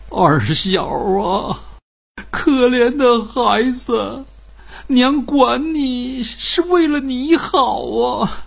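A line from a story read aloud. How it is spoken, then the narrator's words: Anxious, remorseful sobbing. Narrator (Chinese): 二小娘又急又悔，呜呜的哭着说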